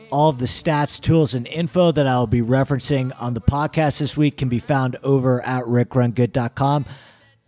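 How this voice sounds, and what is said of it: Sick-sounding voice. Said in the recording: “I've been feeling a little bit under the weather lately, as I'm sure you can tell by my voice.”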